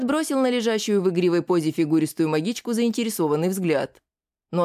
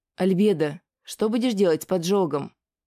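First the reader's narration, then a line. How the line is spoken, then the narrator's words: Soft question. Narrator (Russian): Негромко спросила Ася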